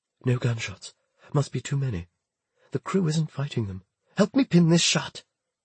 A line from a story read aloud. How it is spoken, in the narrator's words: Susanna whispered